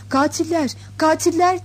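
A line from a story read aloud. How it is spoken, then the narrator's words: Rhythmic chanted shouting. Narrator (Turkish): diye tempo tutarak bağırmaya başladılar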